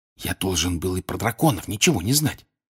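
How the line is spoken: Secret whisper. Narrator (Russian): шепнул ей Гарри так, чтобы никто не услышал

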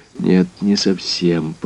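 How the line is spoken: Slow. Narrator (Russian): проговорил я медленно

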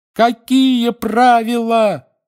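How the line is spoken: Several voices yelling together. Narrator (Russian): завопили Гарри, Рон, Фред и Джордж одновременно

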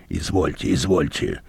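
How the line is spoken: Grumbling. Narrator (Russian): бурчал Мозес

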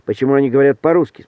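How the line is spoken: Plain. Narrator (Russian): спросил Эдик

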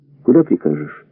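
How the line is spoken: Quiet question. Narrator (Russian): спросил он негромко

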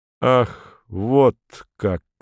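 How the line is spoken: Slow. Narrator (Russian): медленно произносит он наконец

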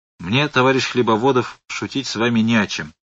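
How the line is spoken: Cold. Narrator (Russian): холодно сказал Роман

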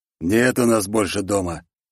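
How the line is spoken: Gloomy. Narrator (Russian): мрачно сказал Дремур

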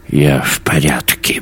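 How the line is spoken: Muttered. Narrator (Russian): буркнул Йонс

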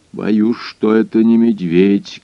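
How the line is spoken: Low muffled voice. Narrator (Russian): глухим голосом произнес хозяин

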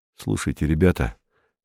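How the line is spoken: Low voice. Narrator (Russian): сказал он вполголоса

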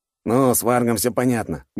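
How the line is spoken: Wry snort. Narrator (Russian): хмыкнул Федя

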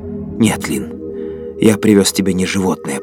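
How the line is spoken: Mutter. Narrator (Russian): пробормотал он

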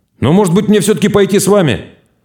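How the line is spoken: Sudden, loud. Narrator (Russian): Румяный вдруг сказал громко

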